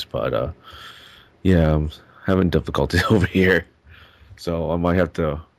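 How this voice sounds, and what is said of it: Sick, congested voice. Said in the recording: “I'm sort of sick right now. I'm not sure if you can tell by my voice ... I think I have a chest congestion right now”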